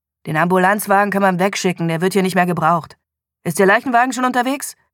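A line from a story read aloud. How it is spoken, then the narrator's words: Curt tone. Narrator (German): David Morgans Tonfall blieb schroff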